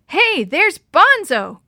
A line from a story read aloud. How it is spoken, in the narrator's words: Chris yelled, jumping up